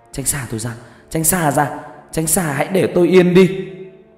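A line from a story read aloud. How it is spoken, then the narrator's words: Loud scream. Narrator (Vietnamese): Vân hét lớn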